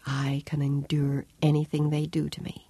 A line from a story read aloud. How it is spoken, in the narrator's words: whispered to herself